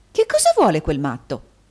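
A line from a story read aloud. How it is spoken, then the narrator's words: Nurse's angry exclamation. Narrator (Italian): esclamò l'infermiera irata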